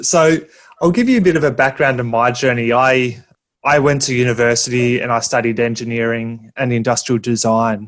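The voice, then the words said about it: Australian accent. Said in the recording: “My accent might be a bit different because I'm coming to you from all the way from Australia”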